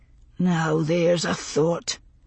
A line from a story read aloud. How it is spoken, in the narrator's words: Duncan muttered, rubbing distractedly at his grizzled temple